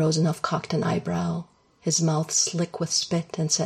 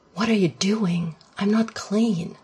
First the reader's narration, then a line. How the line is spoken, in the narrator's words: Shane gasped